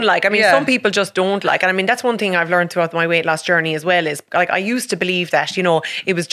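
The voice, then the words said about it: Irish Limerick county accent. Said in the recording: “definitely a county woman. Yeah, you can probably guess that by my accent.”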